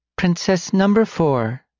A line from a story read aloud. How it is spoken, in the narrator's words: Lyra said, forcing her voice to sound cheery and mask how disturbed she was by the gore she created